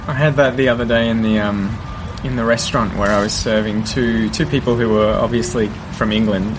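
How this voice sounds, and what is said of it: Mild, neutral Australian accent. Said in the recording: “my accent is so sort of minimal Australian accent ... it's not English ... it's very neutral”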